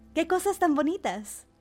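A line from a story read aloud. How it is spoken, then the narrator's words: Exclamation. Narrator (Spanish): exclamó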